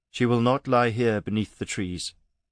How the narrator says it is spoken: he said, his voice dull

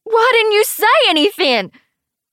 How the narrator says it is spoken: I yell

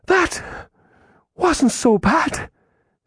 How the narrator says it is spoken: she breathed after a moment

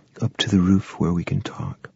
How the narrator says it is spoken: She said quietly

